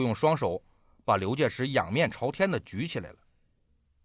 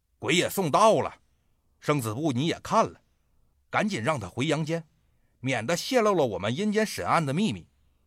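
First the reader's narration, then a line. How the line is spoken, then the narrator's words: Shout from above. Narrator (Chinese): 阎罗王啊在上边喊了一声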